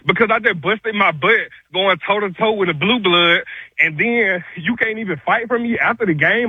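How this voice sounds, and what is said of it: Out of breath, ranting voice. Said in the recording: “I can tell ... out of breath. ... that's out of breath.”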